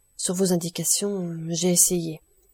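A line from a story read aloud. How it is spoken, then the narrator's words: Woman's murmur. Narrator (French): murmura celle-ci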